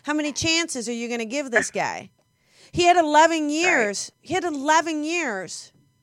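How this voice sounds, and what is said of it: New Jersey accent. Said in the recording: “It's my Jersey accent.”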